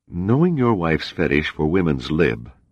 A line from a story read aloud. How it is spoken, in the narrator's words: the stranger said